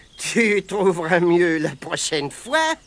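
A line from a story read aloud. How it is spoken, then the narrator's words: Sneering. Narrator (French): ricana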